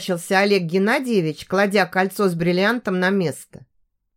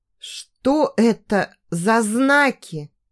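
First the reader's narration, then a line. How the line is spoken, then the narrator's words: Stammering question. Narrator (Russian): запинаясь, спросила Даша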